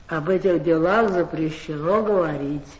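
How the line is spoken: Lazy warden. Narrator (Russian): лениво сказал надзиратель

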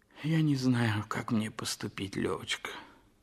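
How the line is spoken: Sighing. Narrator (Russian): вздохнув, сказал Толстой

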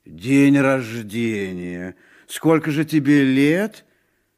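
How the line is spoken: Uncertain reply. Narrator (Russian): Муни неуверенно ответил

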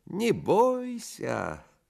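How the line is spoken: Thin singsong voice. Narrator (Russian): Селифан примолвил тонким певучим голоском

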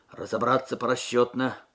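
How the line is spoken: Muffled command. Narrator (Russian): приглушенным голосом скомандовал сержант Губарев

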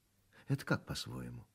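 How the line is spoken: Sighing. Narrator (Russian): Мартынова вздохнула

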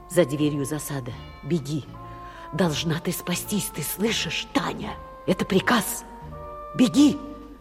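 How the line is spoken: Mouthed whisper. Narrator (Russian): прошептал одними губами

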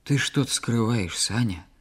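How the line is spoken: Quiet. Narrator (Russian): тихо проговорила Клава

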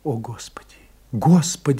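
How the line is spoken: Whisper. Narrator (Russian): шептала Франсуаза

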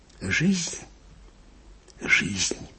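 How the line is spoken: Whisper. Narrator (Russian): шептал Анискин

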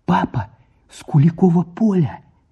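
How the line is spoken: Shouted through window. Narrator (Russian): крикнула в форточку

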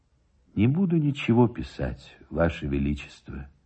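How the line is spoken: Sad reply. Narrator (Russian): отвечал печально Никитин

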